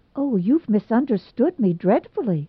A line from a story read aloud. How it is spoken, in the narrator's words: she exclaimed